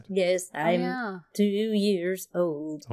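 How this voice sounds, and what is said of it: Robotic synthesized-sounding voice. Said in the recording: “Why are you the only one who sounds like a robot? ... like the original robot accent”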